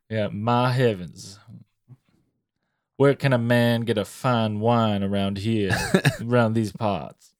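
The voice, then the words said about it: Slow Cajun southern gentleman accent. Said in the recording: “you turn into a Cajun, deep southern gentleman ... It comes with the accent ... It's sophisticated ... You talk slow”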